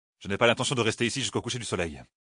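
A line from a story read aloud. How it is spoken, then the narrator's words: Grumbling. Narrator (French): grommela-t-il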